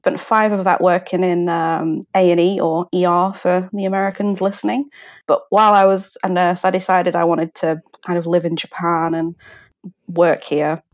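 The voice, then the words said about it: British accent. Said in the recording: “people can probably surmise by your accent that you are not originally from Japan ... I'm originally from the UK.”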